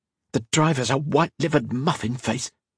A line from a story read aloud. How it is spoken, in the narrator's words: she muttered